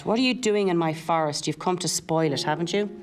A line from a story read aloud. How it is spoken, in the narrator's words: The girl gave a snort and demanded